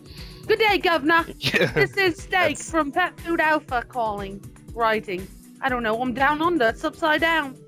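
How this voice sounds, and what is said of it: Australian accent drifting British. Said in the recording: “you have to read this email in an Australian accent. ... That kind of started off a little British, I think.”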